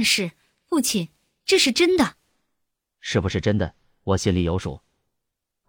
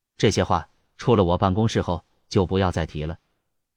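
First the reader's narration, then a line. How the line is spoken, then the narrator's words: Low, stern voice. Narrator (Chinese): 安无涯沉声说道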